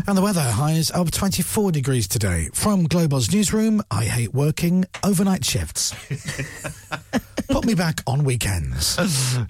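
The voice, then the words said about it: Newsreader-style announcing voice. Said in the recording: “In a news voice”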